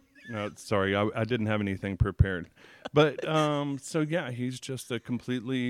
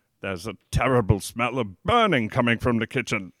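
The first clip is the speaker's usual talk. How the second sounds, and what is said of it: Put-on British accent. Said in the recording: “Throw on your best Britain accent”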